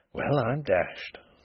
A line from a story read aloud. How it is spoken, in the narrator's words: could only keep repeating very softly to himself